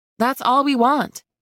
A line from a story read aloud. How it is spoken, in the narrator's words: I said brightly